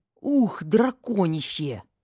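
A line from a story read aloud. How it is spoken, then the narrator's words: Playful growl. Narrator (Russian): очень натурально зарычала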